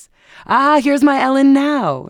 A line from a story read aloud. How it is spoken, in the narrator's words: she exclaimed